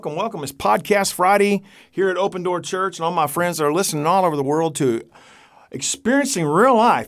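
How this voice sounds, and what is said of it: Hick accent. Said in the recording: “We recognize your hick accent.”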